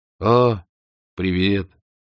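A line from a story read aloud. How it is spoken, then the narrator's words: Gloomy. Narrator (Russian): мрачно изрек он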